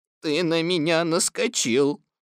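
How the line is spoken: Gloomy. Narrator (Russian): мрачно сказал Иа

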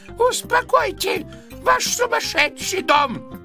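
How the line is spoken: Shout in thin voice. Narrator (Russian): закричал тонким голосом

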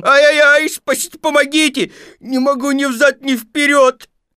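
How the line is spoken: Desperate wail. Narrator (Russian): завопил отчаянным голосом

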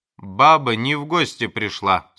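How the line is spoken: Angry. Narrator (Russian): сказал сердито доктор

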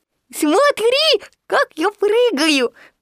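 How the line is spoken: Squeaky little voice. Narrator (Russian): пропищал крошка Ру

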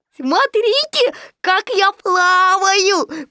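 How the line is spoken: Squeak. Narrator (Russian): пропищал Ру

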